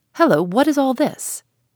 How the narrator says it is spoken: a great stout man, one of the keepers, came up and cried out

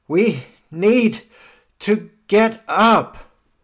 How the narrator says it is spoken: groaning and panting, and he says

